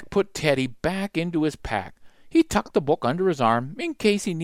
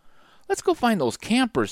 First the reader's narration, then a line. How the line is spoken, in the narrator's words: said Jack, sighing